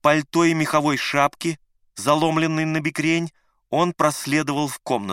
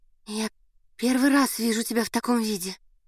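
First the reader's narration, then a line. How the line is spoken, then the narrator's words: Timid. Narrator (Russian): робко сказала Надя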